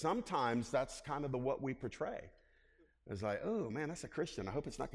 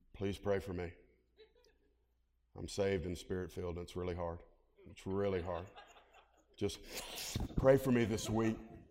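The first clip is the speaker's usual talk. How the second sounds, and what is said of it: Sarcastic, mock-weary tone. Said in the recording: “I'm being sarcastic a little bit”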